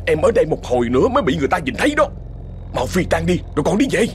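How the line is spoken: Irritated snapping. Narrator (Vietnamese): Thông bực mình nạt ngang

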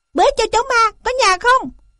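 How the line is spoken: Shouting. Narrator (Vietnamese): hắn đã thét

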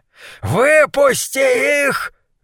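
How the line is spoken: Shrieking. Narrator (Russian): визжал Гуляш

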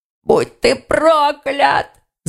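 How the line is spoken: Choked wheeze. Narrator (Russian): засипел Тигон, пытаясь освободиться от удушающего захвата

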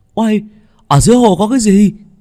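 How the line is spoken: Greedy exclamation. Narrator (Vietnamese): Tính tình tham lam lại nổi lên, hắn kêu lên

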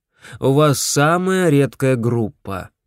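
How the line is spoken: Explaining. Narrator (Russian): объяснил врач

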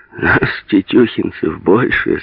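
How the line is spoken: Laughing. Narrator (Russian): смеялся Сеня

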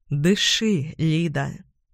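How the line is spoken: Low, husky voice. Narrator (Russian): низкий, хрипловатый голос Володи

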